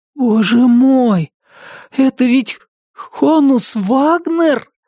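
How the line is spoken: Breathless exhale. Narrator (Russian): выдохнул Брайан

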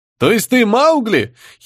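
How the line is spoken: Giggle from crowd. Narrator (Russian): хихикнул кто-то из толпы

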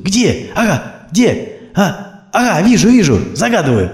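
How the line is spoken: Emotional shout. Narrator (Russian): эмоционально крикнул Сергей

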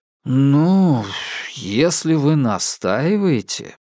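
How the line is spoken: Doubtful drawl. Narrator (Russian): с сомнением протянул Илюшин

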